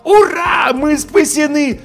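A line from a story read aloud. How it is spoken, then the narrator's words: Yell. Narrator (Russian): завопил я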